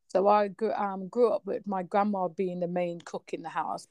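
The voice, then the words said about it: Slight British accent. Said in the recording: “I've got a bit of a British accent now, but born in Trinidad”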